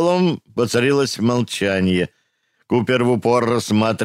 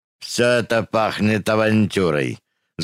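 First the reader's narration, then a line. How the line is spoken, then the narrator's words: Angry. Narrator (Russian): злобно сказал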